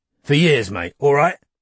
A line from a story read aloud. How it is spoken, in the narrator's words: Jimmy was saying angrily